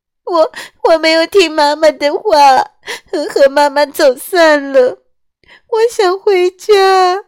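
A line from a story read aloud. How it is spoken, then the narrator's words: Crying child. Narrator (Chinese): 小小鸡一边哭一边说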